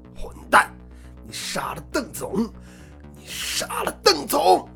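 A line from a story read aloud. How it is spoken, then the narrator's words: Hoarse, despairing anger. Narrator (Chinese): 阿华悲痛欲绝，他的声音因为绝望和愤怒而变得嘶哑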